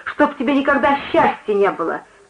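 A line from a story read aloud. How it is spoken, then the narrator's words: Angry shout. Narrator (Russian): крикнула она злобно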